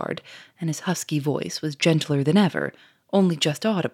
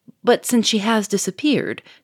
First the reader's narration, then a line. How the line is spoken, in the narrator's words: cried Monsieur Fourmery, in a tone of exasperation